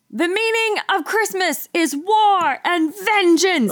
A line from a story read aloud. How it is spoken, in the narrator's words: Is yelling